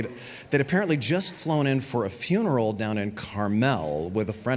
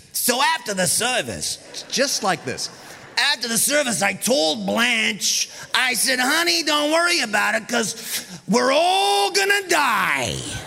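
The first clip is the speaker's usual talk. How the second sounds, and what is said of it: Loud put-on New Jersey accent. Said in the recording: “starts talking really loudly in this New Jersey accent.”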